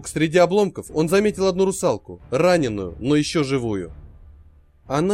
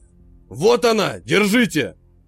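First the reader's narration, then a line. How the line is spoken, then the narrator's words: Shouting. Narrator (Russian): закричал Черная Борода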